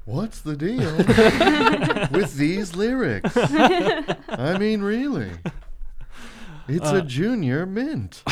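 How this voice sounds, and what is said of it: Imitates another person's voice. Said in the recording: “If you do it as Seinfeld ... That's not a good impression”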